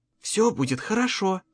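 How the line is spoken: Whisper. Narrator (Russian): прошептала она

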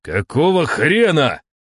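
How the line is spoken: Shout. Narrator (Russian): крикнул я

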